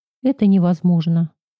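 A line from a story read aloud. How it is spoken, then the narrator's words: Sympathetic sigh. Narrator (Russian): сочувственно вздохнул Илья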